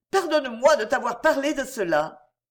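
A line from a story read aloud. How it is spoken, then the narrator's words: Exclaimed. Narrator (French): s'écria Perrine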